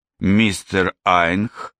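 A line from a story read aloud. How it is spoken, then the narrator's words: Through gritted teeth. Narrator (Russian): сказала она сквозь зубы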